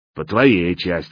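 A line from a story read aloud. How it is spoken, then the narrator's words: Amused snort. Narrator (Russian): хмыкнул слон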